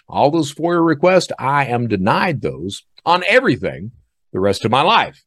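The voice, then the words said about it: Southern American accent. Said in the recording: “I don't try to kill off the Southern accent”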